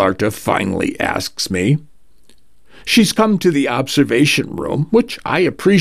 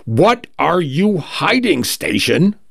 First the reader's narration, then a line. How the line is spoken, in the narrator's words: she shouts finally, voice cracking